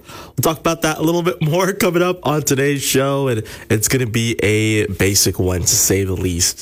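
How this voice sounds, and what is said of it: Rough, messed-up sounding voice. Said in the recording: “my voice is a little messed up”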